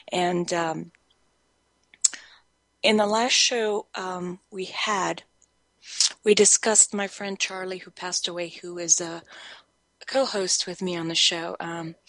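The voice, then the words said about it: Slightly raspy, recovering voice. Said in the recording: “I've lost my voice for a little while, and even though I'm recuperating my voice, I have to say it's not quite back yet ... having a little bit of a rasp to my voice”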